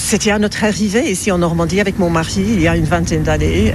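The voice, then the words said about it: Slight English accent in French. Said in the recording (French): “on décèle quand même, et c'est pas difficile, un petit accent”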